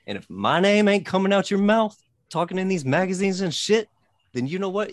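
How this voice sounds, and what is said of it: Strong regional accent. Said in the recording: “first time I really heard ... accent come out this strong”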